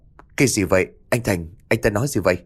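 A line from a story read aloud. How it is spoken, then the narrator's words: Stammering. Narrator (Vietnamese): Anh lắp bắp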